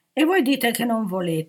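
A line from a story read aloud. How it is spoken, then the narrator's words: Indignant chorus exclaiming. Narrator (Italian): esclamò il coro indignato dei 3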